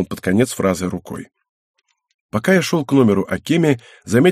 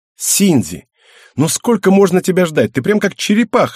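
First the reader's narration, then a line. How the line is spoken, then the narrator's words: Impatient exclamation. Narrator (Russian): воскликнула сидящая в другом кресле Акеми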